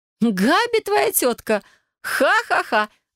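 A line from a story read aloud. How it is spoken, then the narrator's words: Laughing again. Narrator (Russian): вновь рассмеялась Вайолет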